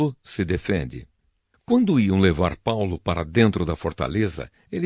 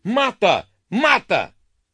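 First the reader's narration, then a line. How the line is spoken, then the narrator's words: Violent crowd shouting. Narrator (Portuguese): violência da multidão que vinha atrás, gritando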